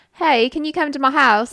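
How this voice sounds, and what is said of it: Poor Australian accent sounding English. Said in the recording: “Was that a good Australian accent? No. ... That's English. ... that's how you sounded.”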